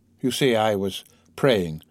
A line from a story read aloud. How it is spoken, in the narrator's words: Morel, turning round, said calmly